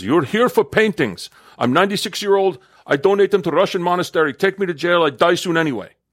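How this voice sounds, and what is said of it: Very thick Russian accent. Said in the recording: “in her very thick Russian accent”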